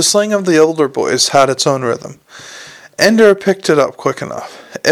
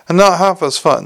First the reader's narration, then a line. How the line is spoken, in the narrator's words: said another